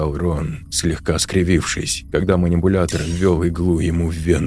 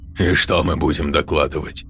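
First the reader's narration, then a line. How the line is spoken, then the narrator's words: Snorting. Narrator (Russian): хмыкнул Назери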